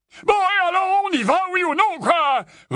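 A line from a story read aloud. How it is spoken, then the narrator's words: Roaring. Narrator (French): rugit l'oncle Vernon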